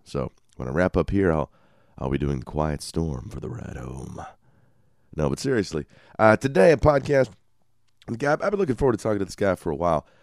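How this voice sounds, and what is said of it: Scratchy, congested deep voice. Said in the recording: “I apologize in advance for the voice ... I get these wonderful sinuses and allergies that give me really scratchy throat, but also give me a good major market radio voice.”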